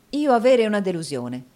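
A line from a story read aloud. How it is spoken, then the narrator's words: Exclaimed. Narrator (Italian): esclamò Nicola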